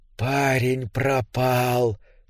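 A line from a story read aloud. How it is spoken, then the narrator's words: Creature's whisper. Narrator (Russian): прошептало существо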